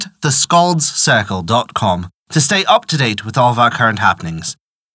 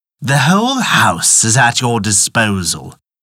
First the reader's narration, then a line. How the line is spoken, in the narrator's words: said he